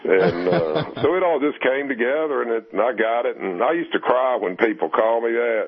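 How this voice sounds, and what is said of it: Southwest Virginia accent. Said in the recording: “I'm from Southwest Virginia ... I kind of recognized your accent”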